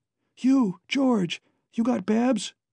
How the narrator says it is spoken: Allen gasped

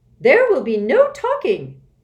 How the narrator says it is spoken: boomed the pencil woman

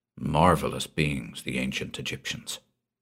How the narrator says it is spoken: he said softly

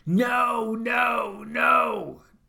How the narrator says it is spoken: started screaming

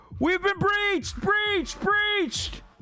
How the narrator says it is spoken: guards yelling

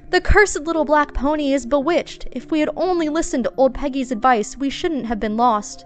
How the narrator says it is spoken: When the waves had covered the children's legs, they repented their careless behavior and cried out

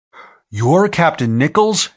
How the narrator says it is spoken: Anse Dawes exclaimed

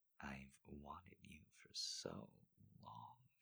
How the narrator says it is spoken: murmured

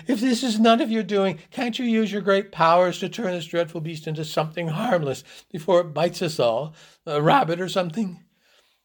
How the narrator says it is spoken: Hoops tearfully

